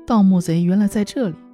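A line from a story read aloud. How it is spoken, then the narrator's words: Laughing. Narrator (Chinese): 爱奴笑着说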